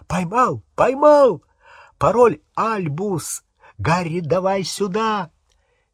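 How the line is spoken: Excited shout. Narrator (Russian): Рон взволнованно закричал

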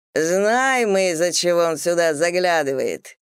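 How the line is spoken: Loud laughter, stout man. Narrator (Russian): громко засмеялся полный господин

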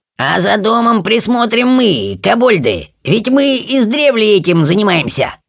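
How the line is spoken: Squeaky voice. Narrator (Russian): пропищал Тимминс

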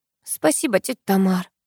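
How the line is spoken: Relieved sigh. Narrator (Russian): облегченно вздохнула я

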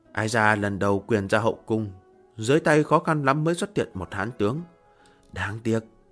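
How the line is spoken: Regretful soft sigh. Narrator (Vietnamese): Hạ Hầu Thừa Vũ tiếc nuối khẽ thở dài

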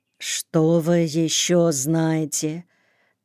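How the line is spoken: Quiet question. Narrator (Russian): так же тихо спросила мать

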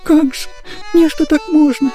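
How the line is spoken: Speaking through tears. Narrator (Russian): заговорил он наконец сквозь слезы

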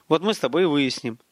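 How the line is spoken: Calm. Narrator (Russian): спокойно сказал Столяров

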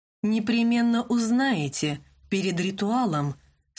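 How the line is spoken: Completely calm. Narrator (Russian): совершенно спокойно сказал Винсан

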